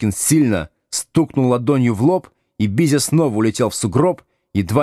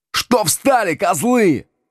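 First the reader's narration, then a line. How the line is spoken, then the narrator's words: Yelled. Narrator (Russian): вопил Бизя Колобок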